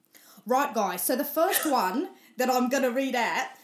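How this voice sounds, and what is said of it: Attempted Australian accent, sounding South African. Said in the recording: “you've got to do it in an Australian accent ... Let's challenge your accents. ... Where is she from, please? Because I thought it was Australia, but South African? Anyone?”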